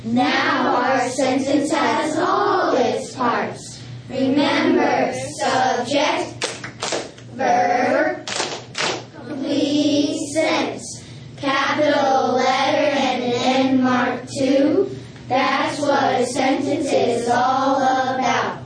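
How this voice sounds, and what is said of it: Southern American accent. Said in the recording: “with a southern accent”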